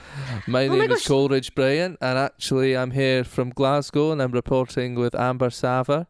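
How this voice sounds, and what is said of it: Put-on Glaswegian Scottish accent. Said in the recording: “Scottish ... This is an accent that I have been putting on for years ... I can actually do quite a sexy Glaswegian accent”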